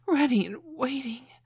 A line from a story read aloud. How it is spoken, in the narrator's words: gasped